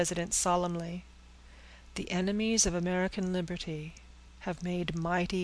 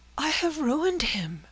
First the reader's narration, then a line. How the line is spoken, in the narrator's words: cried Frances, in terror